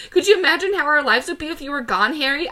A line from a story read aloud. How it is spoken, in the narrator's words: I yelled at him, screaming a little bit in between